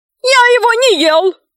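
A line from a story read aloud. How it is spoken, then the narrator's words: Ogre shouting. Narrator (Russian): закричал людоед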